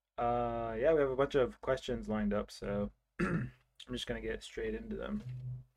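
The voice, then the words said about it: Sick, under-the-weather voice. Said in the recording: “I'm a bit under the weather. Maybe you can tell by my voice”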